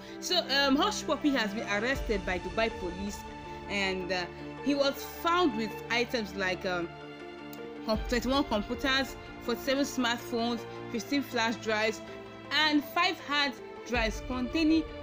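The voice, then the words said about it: Nigerian Igbo-accented English. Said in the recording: “my Igbo accent”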